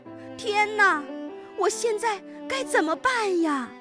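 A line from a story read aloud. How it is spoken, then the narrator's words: Desperate shout. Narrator (Chinese): 他绝望地喊道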